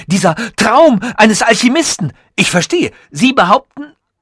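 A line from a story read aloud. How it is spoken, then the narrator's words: Shouting. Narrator (German): schrie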